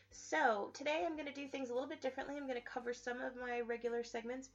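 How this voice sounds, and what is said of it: Weak voice from a cold. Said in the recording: “I am fighting a holiday cold, so if my voice is a little weak, or hopefully I will not be sniffly”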